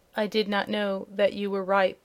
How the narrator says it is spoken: answered the prince in a low voice

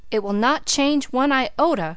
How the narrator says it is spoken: cried Philip

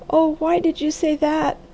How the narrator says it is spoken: wailed the girl

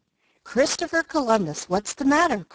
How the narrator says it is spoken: cried Jo

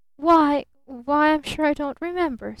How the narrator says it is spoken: stammered her father

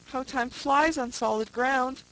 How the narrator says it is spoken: exclaimed Mr

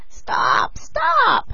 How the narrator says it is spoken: cried she, pretending to be smothered

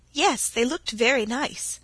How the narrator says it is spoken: said Laura in a small voice

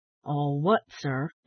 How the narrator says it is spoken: inquired the old gentleman, in a deep, metallic voice

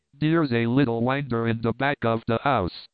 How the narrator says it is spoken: said Bern

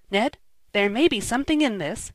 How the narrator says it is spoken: said Tom, in an excited whisper to his chum

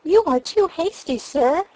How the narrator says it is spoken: she cried

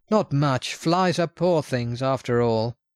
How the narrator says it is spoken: With a laugh he replied

